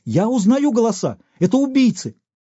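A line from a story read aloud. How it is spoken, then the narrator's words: Sudden shout. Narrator (Russian): Том вскочил, да как, закричит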